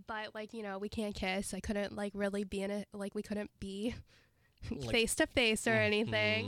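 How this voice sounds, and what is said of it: Sick-sounding voice. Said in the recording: “I'm sick, if you can hear it in my voice.”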